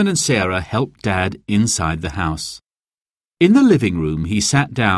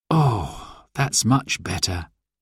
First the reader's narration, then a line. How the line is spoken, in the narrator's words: he sighed